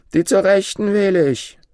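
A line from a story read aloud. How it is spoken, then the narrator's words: Exuberant random shout. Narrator (German): Übermütig rief er aufs Geratewohl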